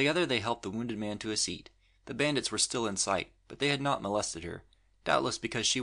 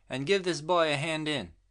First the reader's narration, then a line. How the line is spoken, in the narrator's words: she yelled at the little old gentleman